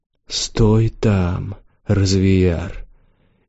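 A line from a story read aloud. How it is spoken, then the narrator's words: Low growling voice. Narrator (Russian): Ее голос был низким, как ворчание потревоженного дракона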